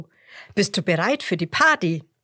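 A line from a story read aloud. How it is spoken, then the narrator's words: Calling out. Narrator (German): ruft Roberto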